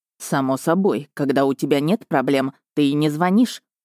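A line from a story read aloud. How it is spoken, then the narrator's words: Distant fatherly grumble. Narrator (Russian): проворчал где-то на другом краю Европы Ханс Эдландер, мой лучший в мире отец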